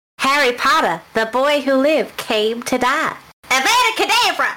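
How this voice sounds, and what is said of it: Weird put-on accent. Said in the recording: “such a weird accent”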